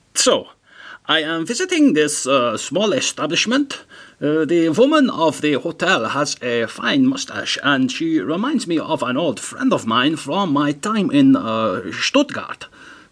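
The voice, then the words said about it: Put-on German English accent. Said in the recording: “this is my attempt at the German English accent.”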